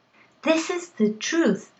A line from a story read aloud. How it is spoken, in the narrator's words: I shouted